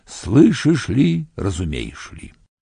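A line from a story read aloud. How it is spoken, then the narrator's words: Low suffering singing. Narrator (Russian): Ведьма-цыганка запела низким страдающим голосом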